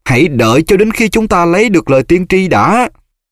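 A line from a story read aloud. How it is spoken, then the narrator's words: Booming. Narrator (Vietnamese): Giọng Malfoy oang oang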